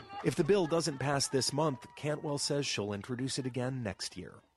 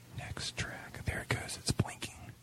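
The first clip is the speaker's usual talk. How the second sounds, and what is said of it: Whispering. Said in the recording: “Why are you whispering?”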